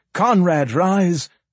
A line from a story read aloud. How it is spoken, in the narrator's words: he cried